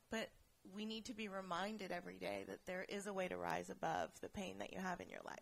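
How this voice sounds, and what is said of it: Teary, emotional voice. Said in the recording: “getting teary.”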